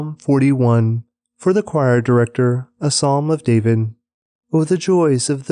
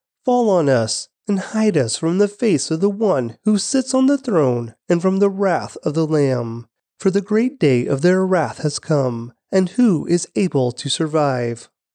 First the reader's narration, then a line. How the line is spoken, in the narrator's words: they cried to the mountains and the rocks